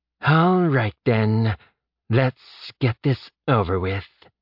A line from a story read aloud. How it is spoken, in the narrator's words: Bresh said with a sigh